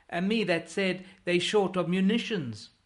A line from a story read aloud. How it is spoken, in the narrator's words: bawls Bark